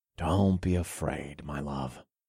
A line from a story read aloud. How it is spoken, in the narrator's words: I murmured in a reassuring tone